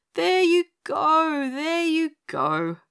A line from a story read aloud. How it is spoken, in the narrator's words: groaned Pinny Penny